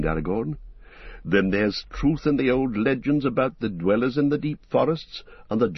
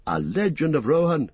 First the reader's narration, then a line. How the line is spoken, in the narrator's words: cried Legolas